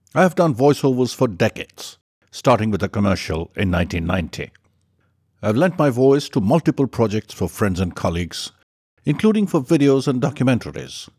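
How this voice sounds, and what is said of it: Neutral international accent, slightly British. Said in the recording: “I have a neutral international accent with a bias towards British.”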